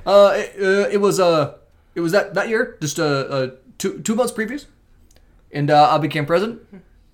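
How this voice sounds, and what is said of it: Barack Obama impression. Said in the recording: “Great impression. ... I've seen a million impressions. They're all okay. That one was phenomenal. It was good. Okay. I mean, it's not the best, but it was good.”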